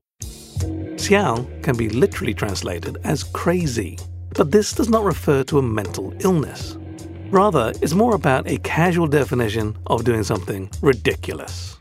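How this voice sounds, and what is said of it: Rigid British accent. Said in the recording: “my awkwardly rigid British accent”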